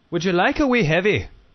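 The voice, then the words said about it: Attempted Scottish accent. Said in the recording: “we have to say it with a, like, it's a wee heavy ... I'm struggling with the Scottish ... The Scottish accent's a little more.”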